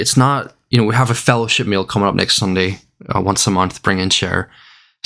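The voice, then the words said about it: Northern Irish accent. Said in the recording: “my funny Northern Irish accent”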